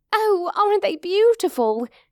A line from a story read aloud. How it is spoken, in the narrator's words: she gasped